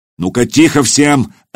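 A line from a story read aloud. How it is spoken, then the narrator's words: Barking. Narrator (Russian): рявкнул Духарев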